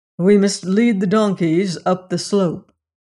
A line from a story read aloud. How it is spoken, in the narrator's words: replied Dr